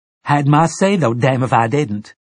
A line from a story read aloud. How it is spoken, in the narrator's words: Detta cried